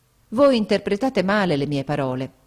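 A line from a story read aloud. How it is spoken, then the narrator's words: Exclaimed. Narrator (Italian): esclamai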